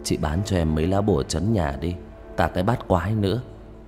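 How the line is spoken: Whisper. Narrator (Vietnamese): An thì thầm với bà Kim

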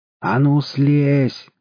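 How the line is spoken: Yelling in unrecognizable voice. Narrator (Russian): заорал не своим голосом Колыч

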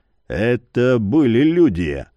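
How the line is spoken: Hoarse remark. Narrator (Russian): хрипло заметил Яр

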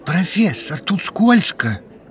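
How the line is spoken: Strained, forced out. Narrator (Russian): Наконец выдавил один адепт

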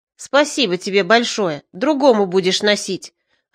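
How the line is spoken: Rude. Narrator (Russian): ответил грубо

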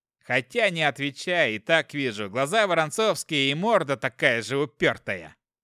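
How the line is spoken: Chuckling old commander. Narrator (Russian): Хохотнув над собственной шуткой, сказал воевода

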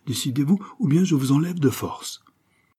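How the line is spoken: Exclaimed. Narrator (French): s'écria Monti

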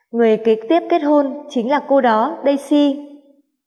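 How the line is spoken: Smiling. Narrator (Vietnamese): Hạ Tử Quyên mỉm cười nói

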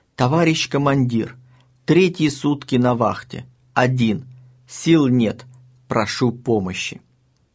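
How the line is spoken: Weak, sepulchral voice. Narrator (Russian): Слабым таким загробным голосом докладывает

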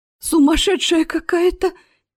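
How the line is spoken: Frightened moan, lady. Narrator (Russian): испуганно простонала дама в зеленой накидке

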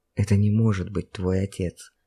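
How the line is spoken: Persuasive whisper. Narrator (Russian): перейдя на шепот, убедительно заявил Олег

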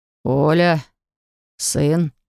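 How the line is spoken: Hoarse wheeze. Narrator (Russian): прохрипел Дергач

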